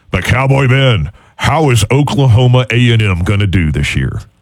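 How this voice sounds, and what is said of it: Imitates another person's voice, poorly. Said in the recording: “in my best Munson voice is still a bad one”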